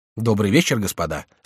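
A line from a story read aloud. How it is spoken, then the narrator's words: Calm. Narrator (Russian): спокойно сказал Эрнатон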